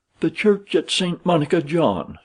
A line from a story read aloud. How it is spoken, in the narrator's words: she cried